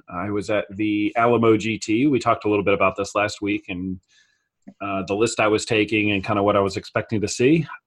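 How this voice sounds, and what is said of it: Raspy, worn-out voice. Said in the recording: “my voice is a little bit raspy here today from being worn out yelling”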